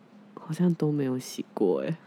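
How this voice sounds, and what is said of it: Suddenly speaking quietly. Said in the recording (Chinese): “你不要突然讲话变小声”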